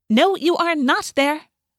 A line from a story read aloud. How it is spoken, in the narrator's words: Rachel snapped